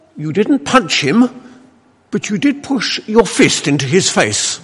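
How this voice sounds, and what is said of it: Put-on Welsh accent. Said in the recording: “this is meant to be a Welsh accent”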